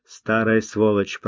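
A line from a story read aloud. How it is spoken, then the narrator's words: Grumbling. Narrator (Russian): проворчал Тавенен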